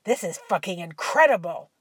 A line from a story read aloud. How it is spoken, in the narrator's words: exclaimed